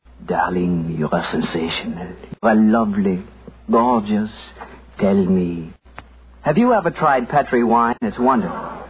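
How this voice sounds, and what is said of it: Whispered put-on French accent. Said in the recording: “whispering in my fine French accent”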